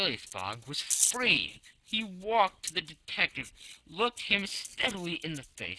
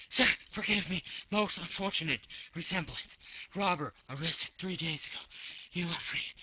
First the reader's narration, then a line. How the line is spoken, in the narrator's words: he stammered